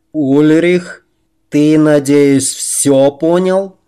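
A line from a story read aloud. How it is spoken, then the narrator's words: Loud, addressing everyone. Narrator (Russian): сэр Дака говорил громко, чтобы все могли услышать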